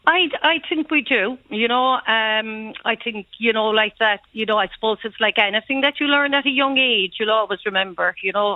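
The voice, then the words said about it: Irish Cork accent. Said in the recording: “you have beautiful Cork tones there ... My best Cork accent”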